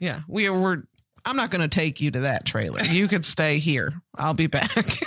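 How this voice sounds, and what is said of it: Usual voice. Nothing is said of it.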